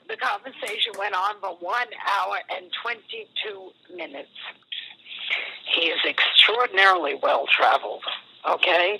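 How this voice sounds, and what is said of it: Hoarse, fading voice. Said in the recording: “I'm hoarse. ... I'm losing my voice now.”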